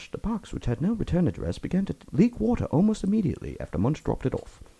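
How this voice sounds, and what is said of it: Hushed old-timey British accent. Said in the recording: “Downton Abbey British accent. To make it old-timey British ... I feel like I'm listening to BBC right now ... It's really good ... Just got to go a little more hushed ... you're pretty good”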